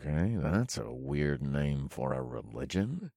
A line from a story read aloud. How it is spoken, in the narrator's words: I muttered under my breath